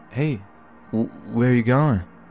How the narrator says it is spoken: I slurred like I was drunk

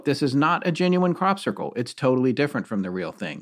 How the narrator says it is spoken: he said firmly

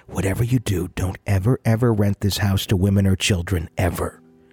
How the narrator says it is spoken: whispered in my ear

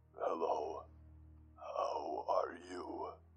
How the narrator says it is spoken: asked the man in a deep and slow voice

